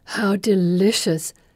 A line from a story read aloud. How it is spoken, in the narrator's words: Felicity exclaims